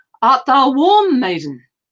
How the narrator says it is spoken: from above her head he cried

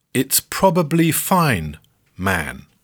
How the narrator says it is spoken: Yoko repeats slowly

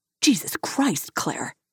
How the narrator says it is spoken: spat

